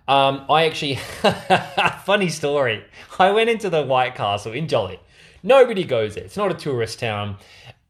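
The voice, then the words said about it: Australian accent. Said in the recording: “they heard my accent ... I've just never met anybody from Australia”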